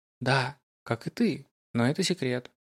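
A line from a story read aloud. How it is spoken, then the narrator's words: Laughing, soft whisper. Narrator (Russian): рассмеялся он, тихо шепнув на ухо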